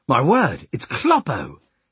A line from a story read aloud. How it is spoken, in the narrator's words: he exclaimed in broad Mainz dialect